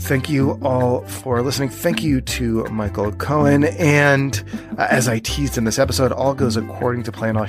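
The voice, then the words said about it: Hoarse, nearly lost voice. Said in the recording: “As you can tell, I've totally lost my voice.”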